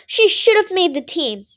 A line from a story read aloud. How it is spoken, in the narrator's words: Mom added furiously